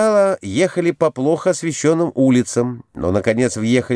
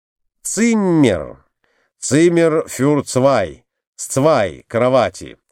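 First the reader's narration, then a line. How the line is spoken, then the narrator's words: Plain. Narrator (Russian): сказал Николай Иванович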